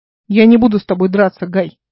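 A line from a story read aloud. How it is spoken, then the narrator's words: Loud, for all to hear. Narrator (Russian): сказала она громко, чтобы все слышали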